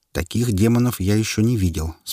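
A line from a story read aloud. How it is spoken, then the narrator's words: Calm. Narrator (Russian): спокойно произнес китаец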